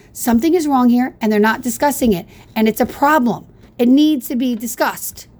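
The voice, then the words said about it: Yelling, loud agitated speech. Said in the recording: “I'm going to stop yelling now. I'm really going to stop yelling now”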